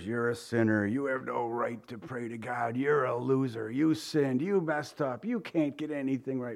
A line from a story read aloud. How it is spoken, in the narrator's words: he whispers